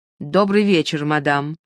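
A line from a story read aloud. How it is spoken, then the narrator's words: High agitated voice. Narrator (Russian): ответил Луи высоким, взволнованным голосом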